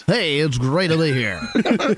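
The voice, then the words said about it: Put-on radio announcer voice. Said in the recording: “Wow, that's such a normal voice for you. In no way did you just put on a radio voice.”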